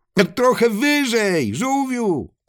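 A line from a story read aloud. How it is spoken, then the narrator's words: Animals shouting back. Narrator (Polish): odkrzyknęły zwierzęta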